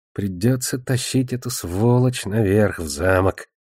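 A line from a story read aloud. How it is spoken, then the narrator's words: Mumbled into a mug. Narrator (Russian): пробормотал он в кружку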